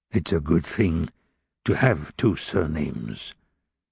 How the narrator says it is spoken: mumbled Fauchelevent, who was, in fact, a little hard of hearing

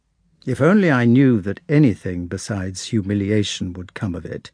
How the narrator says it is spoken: answered her son coldly

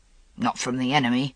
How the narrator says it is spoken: Gawain growled

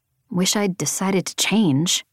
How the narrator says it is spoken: I muttered to Jorgen

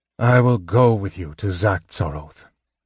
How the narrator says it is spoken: Sturm sighed

